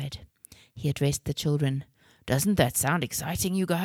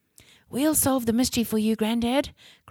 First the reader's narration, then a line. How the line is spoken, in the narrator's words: cried Jake with great excitement